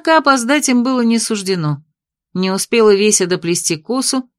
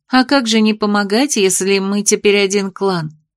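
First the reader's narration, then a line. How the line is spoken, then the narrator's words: Sighing. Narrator (Russian): вздохнула Веся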